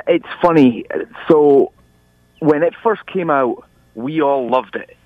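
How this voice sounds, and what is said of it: Scottish accent. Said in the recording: “your homeland of Scotland ... people think I've got a Mel Gibson broken Scottish accent ... you don't sound American at all”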